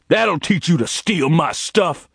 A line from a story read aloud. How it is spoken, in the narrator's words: Jordan roared at Gerald